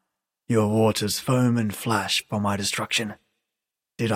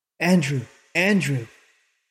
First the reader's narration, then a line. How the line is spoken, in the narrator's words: cried the young woman, in a voice quavering with emotion